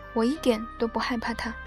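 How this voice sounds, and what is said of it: Trembling voice. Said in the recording (Chinese): “用颤抖的声音说”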